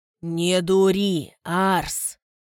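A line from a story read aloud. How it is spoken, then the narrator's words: Calm guard. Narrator (Russian): спокойно проговорил страж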